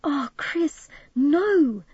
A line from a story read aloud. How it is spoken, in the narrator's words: Midge wailed